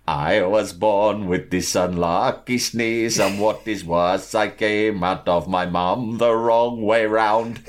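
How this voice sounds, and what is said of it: Sung in a put-on Indian accent. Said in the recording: “He starts singing it in an Indian accent. So it's not me doing it. This is how he sung it”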